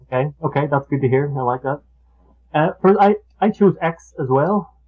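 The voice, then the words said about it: Unusual accent. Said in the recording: “my odd little accent”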